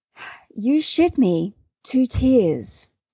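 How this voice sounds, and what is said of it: Cultivated, slightly British Australian accent. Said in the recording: “This is a cultivated accent, which is slightly British sounding. So think like Kate Blanchett.”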